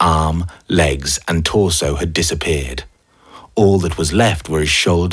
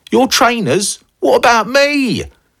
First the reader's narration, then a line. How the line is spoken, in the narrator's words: Snake screamed